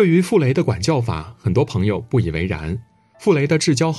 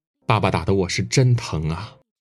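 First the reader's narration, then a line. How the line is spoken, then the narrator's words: Wistful, reminiscing sigh. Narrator (Chinese): 傅聪回忆起童年往事时，仍感叹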